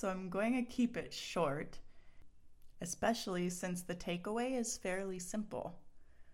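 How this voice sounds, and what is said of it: Slightly scratchy, strained throat. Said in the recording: “I have a little bit of a tickle in my throat today that's making it kind of challenging to talk coherently, consistently”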